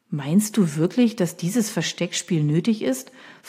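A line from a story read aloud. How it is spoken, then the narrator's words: Plain question. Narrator (German): fragt Paul H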